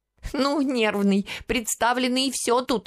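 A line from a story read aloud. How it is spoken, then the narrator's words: Tearful shouting. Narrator (Russian): кричала сквозь слезы Гранька, получившая от матери подзатыльник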